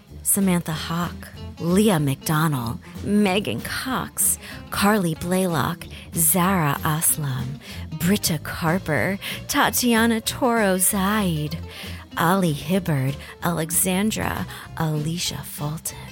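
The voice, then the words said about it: Sultry, seductive speaking voice. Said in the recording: “in my sexy voice”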